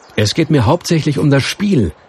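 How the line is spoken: Plain. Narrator (German): sagte Florian

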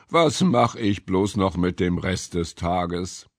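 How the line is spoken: Muttered. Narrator (German): murmelte

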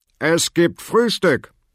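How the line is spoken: Father calling from kitchen. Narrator (German): rief der Vater aus der Küche

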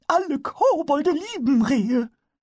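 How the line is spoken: Calling out. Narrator (German): rief er

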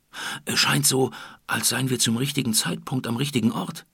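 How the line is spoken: Excited hiss. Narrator (German): zischte Leon aufgeregt

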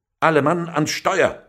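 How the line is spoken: Loud shout. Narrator (German): rief laut

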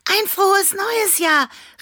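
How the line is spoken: Called out. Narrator (German): rief Annabella Klimperauge

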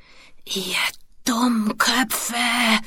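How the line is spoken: Hiss. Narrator (German): zischte

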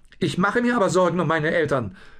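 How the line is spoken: Blustering. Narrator (German): polterte Lucius

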